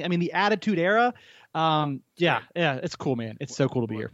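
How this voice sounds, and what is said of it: Excited, enthusiastic voice. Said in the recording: “I can hear it in your voice. You're very excited.”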